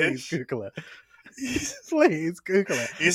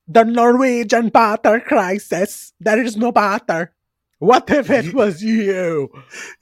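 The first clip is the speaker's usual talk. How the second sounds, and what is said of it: Put-on Swedish accent. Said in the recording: “You just sound Swedish. ... You sound like Trixie Mattel doing a Swedish accent.”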